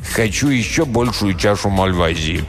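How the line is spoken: Commanding tone. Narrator (Russian): повелительным тоном проговорил

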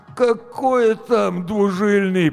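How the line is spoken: Groaning. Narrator (Russian): простонал Гоша

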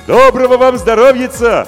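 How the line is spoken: Expressive shout. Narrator (Russian): выразительно крикнул Емельян

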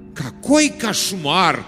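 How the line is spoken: Mock horrified exclamation. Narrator (Russian): с напускным ужасом воскликнул Герберт

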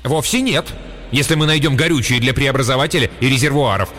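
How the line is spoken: Sharp reminder. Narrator (Russian): резко напомнил ему Блейн

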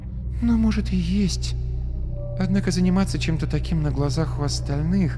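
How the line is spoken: Sighing whisper. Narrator (Russian): Она вздохнула и прошептала

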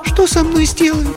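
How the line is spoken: Thin-voiced question. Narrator (Russian): спросила она, тонким голосом, несмотря на свою решимость

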